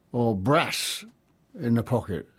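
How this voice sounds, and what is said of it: Put-on Yorkshire accent. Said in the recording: “as we say in Yorkshire”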